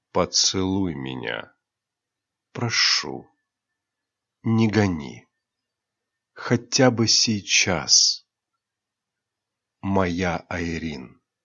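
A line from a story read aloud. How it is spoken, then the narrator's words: Tender pleading whisper. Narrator (Russian): Нежно, почти умоляя, прошептал Рионар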